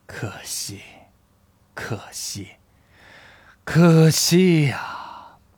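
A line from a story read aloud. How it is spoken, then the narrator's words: Long sigh. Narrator (Chinese): 长叹了一句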